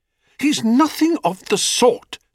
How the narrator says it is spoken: said Psyche indignantly

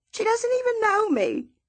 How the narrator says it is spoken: Miss Celia cries

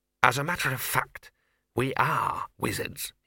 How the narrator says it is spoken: he hissed

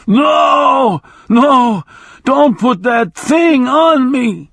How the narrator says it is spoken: he screamed

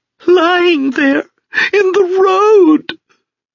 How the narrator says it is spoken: her voice broke

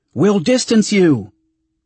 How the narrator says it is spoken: Agia shouted

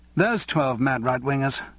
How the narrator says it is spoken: said Charles sharply

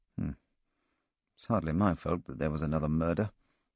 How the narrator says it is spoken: I muttered under my breath

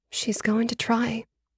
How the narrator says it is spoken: I said in a small voice

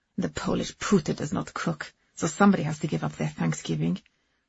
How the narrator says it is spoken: she muttered afterwards

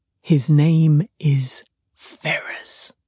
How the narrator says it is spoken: said he in a very audible whisper

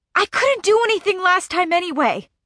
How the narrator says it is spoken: Whit snaps

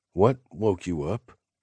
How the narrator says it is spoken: I asked, uneasily

